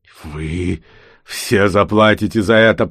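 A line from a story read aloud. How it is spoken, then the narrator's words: Hissed. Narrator (Russian): прошипел он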